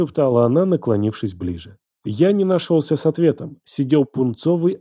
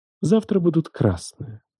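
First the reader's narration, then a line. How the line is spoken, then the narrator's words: Thoughtful musing aloud. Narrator (Russian): добавила она задумчиво, словно размышляла вслух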